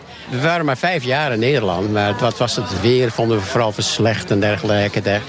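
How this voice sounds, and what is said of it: Light American accent in Dutch. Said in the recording (Dutch): “ik hoor toch wel een licht accent als ik goed luister. Uit Amerika? ... Uit Amerika, Californië.”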